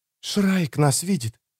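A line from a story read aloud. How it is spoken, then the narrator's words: Whispered. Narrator (Russian): прошептала Эстер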